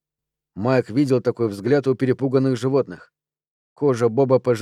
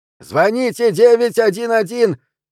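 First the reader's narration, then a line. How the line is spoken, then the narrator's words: Shouted. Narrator (Russian): крикнул Нил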